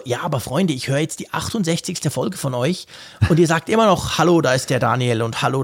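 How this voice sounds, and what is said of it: Marked Swiss German accent. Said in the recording (German): “Du hast den etwas markanten Akzent ... der aus der Schweiz”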